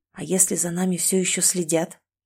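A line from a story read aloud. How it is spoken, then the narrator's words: Barely audible, close to ear. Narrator (Russian): еле слышно произнес он, склонившись к моему уху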